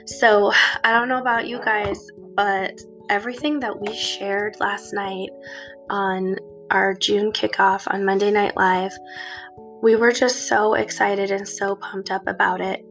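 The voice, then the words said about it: Scratchy, hoarse voice. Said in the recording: “excuse my voice a little bit today. I'm like all scratchy from my allergies”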